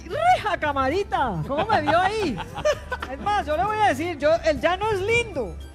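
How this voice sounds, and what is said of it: Put-on regional Colombian plains accent. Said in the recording (Spanish): “se le fue el acento ... A mí se me pegan todos los acentos.”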